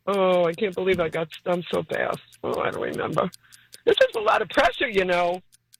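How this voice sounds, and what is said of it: New York accent. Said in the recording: “You're from Brooklyn. ... my New York accent is coming out”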